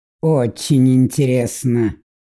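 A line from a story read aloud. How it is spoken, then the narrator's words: Amused snort. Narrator (Russian): хмыкнул принц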